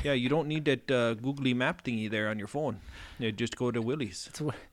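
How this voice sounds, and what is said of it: Put-on Canadian / northern Minnesota accent. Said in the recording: “Sorry, all of our Canadian listeners... we started Canadian, then we went into maybe Minnesota a little bit... northern Minnesota... I came back with that accent, and I just can't stop”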